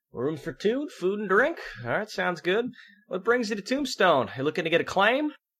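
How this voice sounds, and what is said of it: Barkeeper character voice with accent. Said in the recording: “are we doing accents? ... I'm doing them.”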